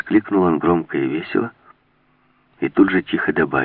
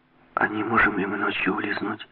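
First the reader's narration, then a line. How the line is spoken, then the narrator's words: Quiet question. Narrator (Russian): тихо спросила Жанна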